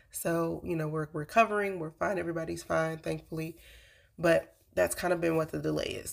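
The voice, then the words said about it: Weak, recovering voice. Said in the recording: “If you can hear it in my voice, I'm getting my voice back, but I didn't really have my voice for the last couple weeks.”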